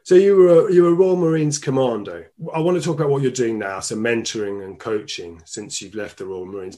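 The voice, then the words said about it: Speaks with a noticeable accent. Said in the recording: “With my accent, I'll never get it quite right.”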